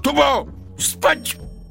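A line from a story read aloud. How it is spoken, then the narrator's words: Shouted. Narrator (Russian): Я крикнул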